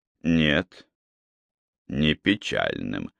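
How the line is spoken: Tired. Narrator (Russian): устало проговорил Малкольм

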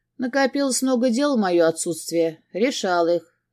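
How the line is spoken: Plain. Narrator (Russian): ответил я

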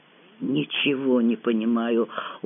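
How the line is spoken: Dejected mutter. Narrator (Russian): удрученно пробормотала я

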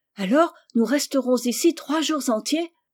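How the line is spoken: Exclamation. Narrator (French): s'écria Rose

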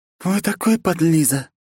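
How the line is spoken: Sighing. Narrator (Russian): вздохнула Грейс

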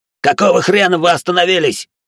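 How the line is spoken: Barked. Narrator (Russian): рявкнул

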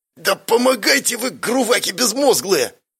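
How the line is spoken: Angry hiss. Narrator (Russian): Зло прошипела Зарина

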